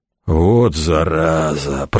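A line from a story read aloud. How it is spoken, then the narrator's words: Creaky. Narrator (Russian): проскрипел Деодат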